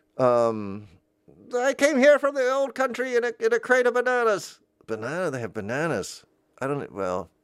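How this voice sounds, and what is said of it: Put-on old-country foreign accent. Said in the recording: “because of the accent ... I'm doing the wrong accent if I would say a place”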